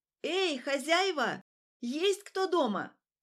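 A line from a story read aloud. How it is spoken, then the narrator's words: Loud shout. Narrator (Russian): громко крикнула я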